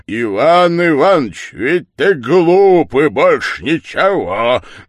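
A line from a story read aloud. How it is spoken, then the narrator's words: Loud statement. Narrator (Russian): громко сказал Григорий Григорьевич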